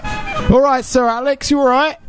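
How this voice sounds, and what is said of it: Put-on Cockney accent. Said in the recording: “annoying fucking Cockney accent”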